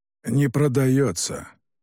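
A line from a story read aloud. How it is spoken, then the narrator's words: Hoarse curt remark. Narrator (Russian): хрипло бросил император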